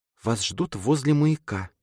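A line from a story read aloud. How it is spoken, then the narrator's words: Whisper. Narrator (Russian): прошептала мама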